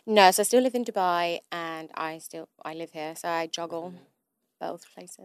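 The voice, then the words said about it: Manchester English accent. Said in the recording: “I gathered from your accent, you're not from London ... originally I'm from Manchester ... you're Mancunian”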